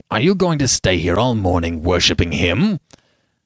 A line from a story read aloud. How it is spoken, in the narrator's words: Lord Uplandtowers said roughly